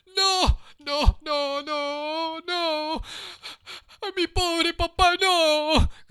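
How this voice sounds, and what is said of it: Desperate shouting. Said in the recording (Spanish): “gritó Pinocho con acento desesperado”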